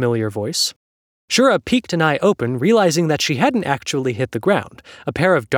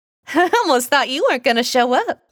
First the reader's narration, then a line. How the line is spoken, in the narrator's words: the bot laughed